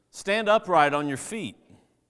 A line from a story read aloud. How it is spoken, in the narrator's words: Paul, seeing that he had faith to be made well, said in a loud voice